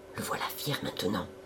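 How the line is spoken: Whisper in ears. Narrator (French): murmura Babet à l'oreille des deux autres

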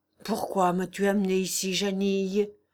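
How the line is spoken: Man with heavy sigh. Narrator (French): fit-il avec un gros soupir

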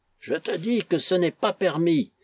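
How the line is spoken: Exclaimed. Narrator (French): s'écria Nazarov

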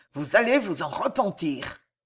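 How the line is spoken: Hissing through clenched teeth. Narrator (French): ajouta Pardaillant, les dents serrées, la voix sifflante

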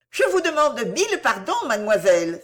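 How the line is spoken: Exclaimed. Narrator (French): s'écria Madame Belfield

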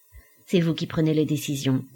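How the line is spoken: Said coldly. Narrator (French): dit froidement Dubreuil

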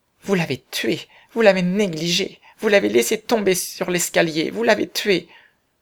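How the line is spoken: Sad, tearful. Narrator (French): Suzanne essuyait les larmes qui l'aveuglaient, elle dit tristement

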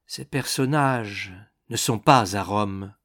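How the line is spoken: Muffled reply. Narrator (French): répondit d'une voix sourde

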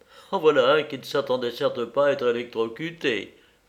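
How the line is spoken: Laughing. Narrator (French): fis-je en riant

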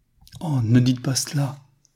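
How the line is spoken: Naive, pleading, tender exclamation. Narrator (French): s'écria Newman d'un ton de naïveté touchante tant il était à la fois suppliant et caressant

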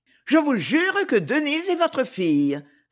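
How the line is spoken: Exclaimed. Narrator (French): s'écria-t-elle

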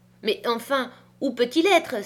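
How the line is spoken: Anxious exclamation. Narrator (French): s'écria-t-elle

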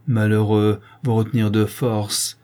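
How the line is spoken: Distressed, indignant cry. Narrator (French): s'écrie le duc d'une voix navrante et indignée

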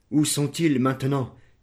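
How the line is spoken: Exclamation. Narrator (French): s'écria-t-il

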